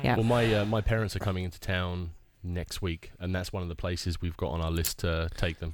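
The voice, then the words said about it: Australian accent. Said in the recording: “Parents are from Australia? ... Yeah, just a little bit further west. ... Is that where your accent's from? ... It is.”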